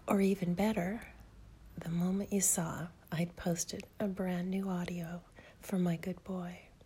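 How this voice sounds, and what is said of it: Sultry, seductive voice. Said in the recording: “my delicious, sexy voice”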